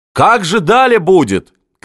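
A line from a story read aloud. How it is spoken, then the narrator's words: Fiery shouting. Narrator (Russian): кричал пламенный Шишкарев, заводила главный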